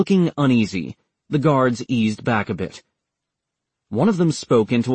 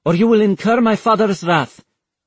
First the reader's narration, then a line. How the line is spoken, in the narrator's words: she snapped at them